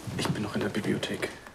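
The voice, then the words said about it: Whispering. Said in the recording (German): “Warum flüsterst du?”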